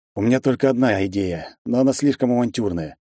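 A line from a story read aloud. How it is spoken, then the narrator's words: Heavy sigh. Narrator (Russian): тяжело вздохнул я в ответ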